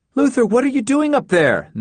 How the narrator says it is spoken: Nora yelled

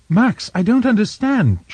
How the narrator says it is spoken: she cried

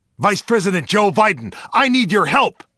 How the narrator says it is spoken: Jeff shouted

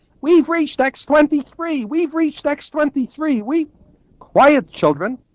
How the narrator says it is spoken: said Gerardine sharply

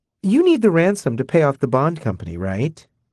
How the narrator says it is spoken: Pin Lee said

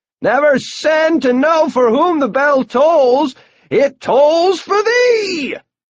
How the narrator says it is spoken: I smirked and shouted

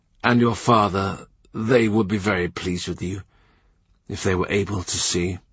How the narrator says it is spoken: he says softly

